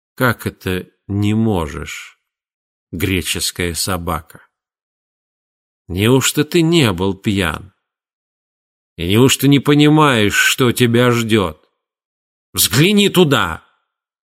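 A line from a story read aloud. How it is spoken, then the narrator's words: Muffled menacing question. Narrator (Russian): Тигелин также приглушенным, но грозным голосом спросил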